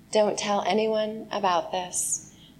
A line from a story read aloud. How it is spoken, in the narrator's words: Jesus sternly warned them